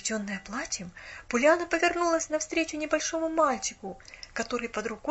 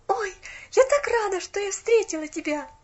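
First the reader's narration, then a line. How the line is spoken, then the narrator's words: Joyful exclamation. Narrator (Russian): воскликнула она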